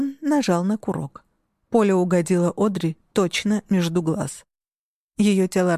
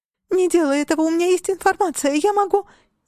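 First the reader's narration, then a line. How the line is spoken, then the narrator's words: Hysterical scream. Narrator (Russian): истерично завопила Одри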